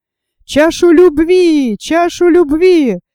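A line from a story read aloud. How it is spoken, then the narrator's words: Shouting in chorus. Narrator (Russian): закричали они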